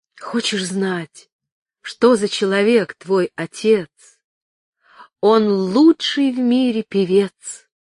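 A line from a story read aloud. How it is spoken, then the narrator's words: Wry mocking whisper. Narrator (Russian): Выражение мудрой насмешливости она шептала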